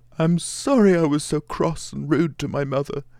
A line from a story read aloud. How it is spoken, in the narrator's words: he sobbed out